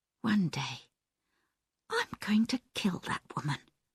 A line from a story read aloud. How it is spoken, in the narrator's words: Diane said quietly